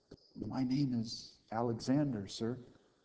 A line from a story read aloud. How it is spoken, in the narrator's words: the soldier meekly said